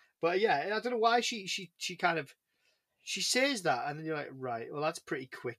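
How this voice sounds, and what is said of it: Usual voice. Nothing is said of it.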